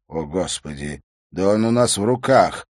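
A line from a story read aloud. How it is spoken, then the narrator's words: Breathed out. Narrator (Russian): выдохнул Либье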